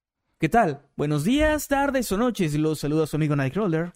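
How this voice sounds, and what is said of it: Radio announcer voice. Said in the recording (Spanish): “podrían felicitar a mi esposa por su cumple con voz de locutor”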